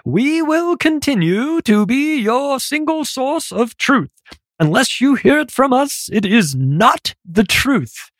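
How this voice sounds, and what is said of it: Pretentious put-on British accent. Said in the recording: “I'm not doing a New Zealand accent. That one's too difficult. I just did a pretentious British accent for her.”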